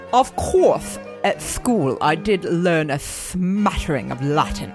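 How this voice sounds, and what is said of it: Put-on posh English accent. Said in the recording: “I have to do it kind of like in your accent... I'm gonna do an impression of you... The English accent is tough... You are so posh, Dukey. So very, very posh.”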